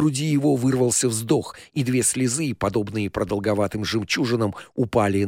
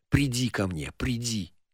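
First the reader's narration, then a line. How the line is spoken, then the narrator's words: Whisper. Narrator (Russian): шептал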